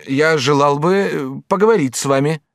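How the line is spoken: Stammering lover's reply. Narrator (Russian): отвечал наш влюбленный, запинаясь

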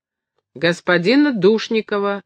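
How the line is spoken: Angry reply. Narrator (Russian): отвечал я сердито

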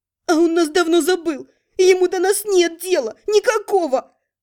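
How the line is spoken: Tearful outburst. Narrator (Russian): Прорвалось сквозь слезы

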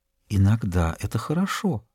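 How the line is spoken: Whispering. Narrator (Russian): Она прошептала

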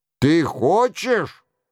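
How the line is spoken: Angry roar. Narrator (Russian): взревел Роншероль с пылающим лицом

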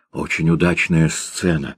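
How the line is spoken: Whispered. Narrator (Russian): шептал Кречмар

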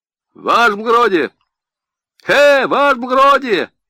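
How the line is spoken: Cheerful shout. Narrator (Russian): весело крикнули

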